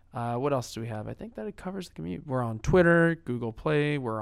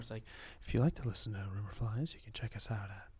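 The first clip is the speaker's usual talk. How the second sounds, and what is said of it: AM talk radio announcer voice. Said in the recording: “you change your voice whenever you do these call outs ... That's like AM talk radio voice.”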